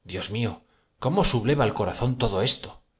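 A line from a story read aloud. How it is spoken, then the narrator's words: Exclamation. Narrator (Spanish): exclamó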